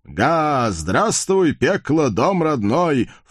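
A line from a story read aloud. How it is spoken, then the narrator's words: Loud laughter. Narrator (Russian): в полный голос захохотал коварный байстрюк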